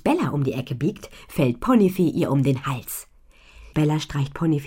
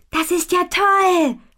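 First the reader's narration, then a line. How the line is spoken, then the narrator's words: Calling out. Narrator (German): ruft Butterblume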